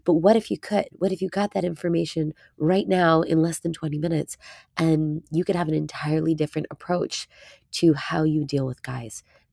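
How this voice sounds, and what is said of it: Raspy, hoarse voice. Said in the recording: “bear with my raspy voice for a couple more minutes. I'm a bit ill”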